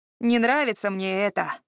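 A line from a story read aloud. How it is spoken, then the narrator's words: Grumbling. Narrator (Russian): ворчал Харад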